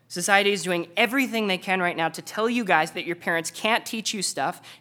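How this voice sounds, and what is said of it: Slightly raised, emphatic voice. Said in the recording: “I know that I'm raising my voice a little bit”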